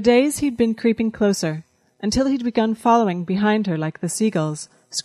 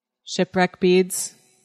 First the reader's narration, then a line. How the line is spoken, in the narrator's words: Chalcedony answered